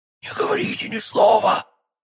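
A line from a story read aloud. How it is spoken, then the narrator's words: Strained, choked voice. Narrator (Russian): сказала она сдавленным голосом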